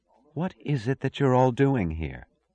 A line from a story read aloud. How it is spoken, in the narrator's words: she asked simply, almost wistfully